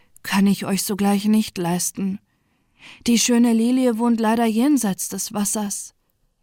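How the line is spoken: Snake, deep sigh. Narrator (German): versetzte die Schlange mit einem tiefen Seufzer

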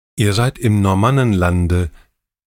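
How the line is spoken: Plain. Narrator (German): sagte Gudrun

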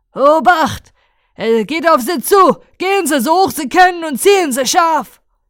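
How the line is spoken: Shouting. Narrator (German): Er schrie

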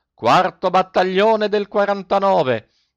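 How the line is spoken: Panicked yelling. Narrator (Italian): Coretti perdé la testa e urlò

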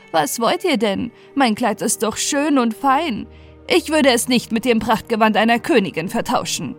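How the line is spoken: Laughing old woman. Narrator (German): lachte sie die Alte aus und sagte

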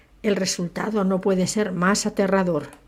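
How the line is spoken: Murmuring. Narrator (Spanish): murmuró

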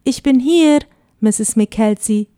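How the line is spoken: Calling out. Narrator (German): rief er

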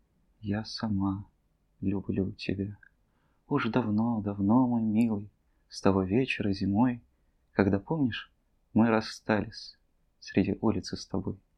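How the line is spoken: Barely audible whisper. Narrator (Russian): чуть слышно прошептала

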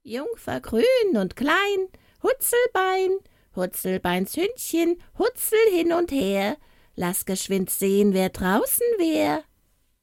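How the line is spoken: Called from inside. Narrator (German): wie es inwendig rief

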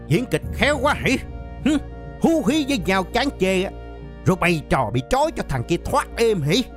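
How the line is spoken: Shout. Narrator (Vietnamese): Thằng Điện hét lên

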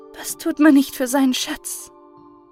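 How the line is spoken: Woman sighing slightly. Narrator (German): sie seufzte dabei ein wenig

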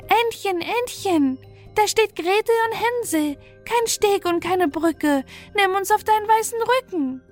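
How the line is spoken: Calling out. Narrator (German): rief sie

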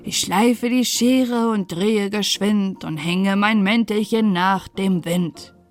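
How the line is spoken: Singing over whirring wheel. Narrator (German): Sein Rad schnurrte und er sang dazu

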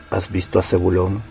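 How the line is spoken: Quiet question. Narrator (Spanish): preguntó en voz baja

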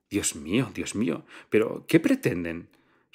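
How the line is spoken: Agitated whisper. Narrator (Spanish): susurró la señora Kampf agitadamente

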